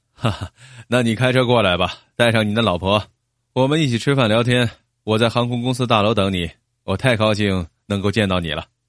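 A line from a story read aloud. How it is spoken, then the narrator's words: Hearty laugh. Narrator (Chinese): 德克斯爽快的笑道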